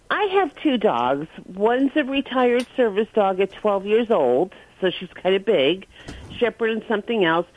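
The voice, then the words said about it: New York accent. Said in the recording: “You had that kind of New York accent.”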